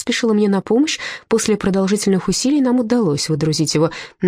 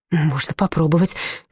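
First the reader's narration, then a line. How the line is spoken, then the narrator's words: Heavy sigh. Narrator (Russian): тяжело вздохнула я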